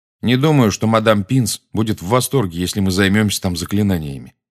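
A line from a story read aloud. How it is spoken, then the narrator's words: Plain. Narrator (Russian): сказал Гарри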